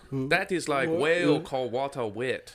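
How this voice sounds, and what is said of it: Mock Asian accent. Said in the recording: “I was waiting for a racist Asian accent to occur ... Your Asian accent is the funniest one”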